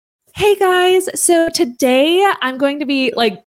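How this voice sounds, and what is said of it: Exaggerated customer-service YouTuber voice. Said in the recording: “I had like this almost like customer service voice or like this YouTuber voice ... that's not my voice”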